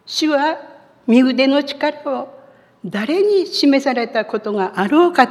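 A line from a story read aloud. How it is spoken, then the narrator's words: Crying out. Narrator (Japanese): 叫んでいるように聞こえる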